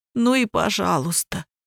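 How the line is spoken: Trembling voice reply. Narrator (Russian): дрожащим голосом ответил Кирик

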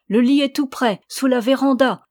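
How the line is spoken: Exclamation. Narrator (French): s'écria-t-elle

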